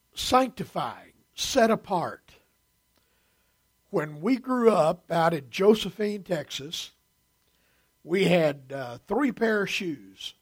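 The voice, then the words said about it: Hoarse, failing voice. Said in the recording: “I'm losing my voice, and I don't know why.”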